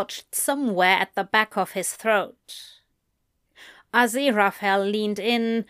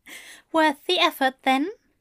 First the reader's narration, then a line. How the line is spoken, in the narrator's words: Aziraphale chuckled